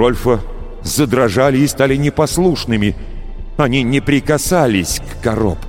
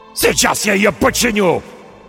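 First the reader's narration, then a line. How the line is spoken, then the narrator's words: Shouted. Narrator (Russian): крикнул Рольф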